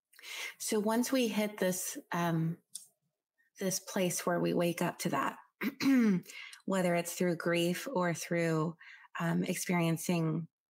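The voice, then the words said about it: Hoarse, strained, fading voice. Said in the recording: “losing my voice today for some reason”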